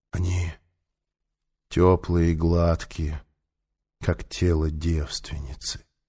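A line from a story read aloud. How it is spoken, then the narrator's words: Whisper. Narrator (Russian): он прошептал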